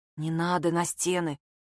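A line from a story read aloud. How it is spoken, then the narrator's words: Barely audible objection. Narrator (Russian): чуть слышно возразила Майя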